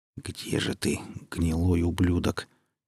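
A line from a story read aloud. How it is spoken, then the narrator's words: Quiet, spoken aloud. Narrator (Russian): тихо произнес вслух Зимин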